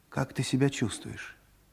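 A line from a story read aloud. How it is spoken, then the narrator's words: Plain. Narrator (Russian): спросил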